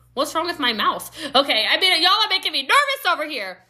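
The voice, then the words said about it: Loud, yelling voice. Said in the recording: “I'm talking really loudly. All right. I'm yelling”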